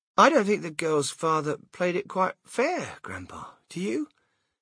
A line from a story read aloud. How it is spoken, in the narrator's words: Charlie murmured